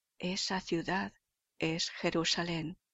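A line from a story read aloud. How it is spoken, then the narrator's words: Persuasive mysterious inner murmur. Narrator (Spanish): una voz persuasiva, salida quizá de lo íntimo de su ser, que murmuraba misteriosamente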